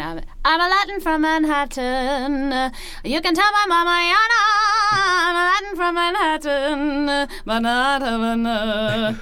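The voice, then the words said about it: Sung impression of another person's voice. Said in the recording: “do a quick Patty LaPone impression ... A cappella ... singing”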